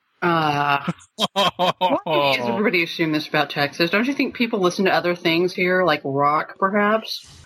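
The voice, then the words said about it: Slight Texan twang. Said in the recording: “You got a bit of a twang going on there.”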